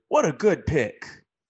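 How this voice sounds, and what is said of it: Imitates a sports broadcaster's voice. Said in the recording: “In my best Lee Corso voice,”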